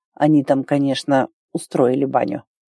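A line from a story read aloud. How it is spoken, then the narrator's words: Quiet. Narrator (Russian): проговорил тихо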